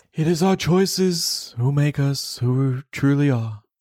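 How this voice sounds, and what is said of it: Dumbledore impression. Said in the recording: “do your Dumbledore voice ... I give that about a 6 out of a 10.”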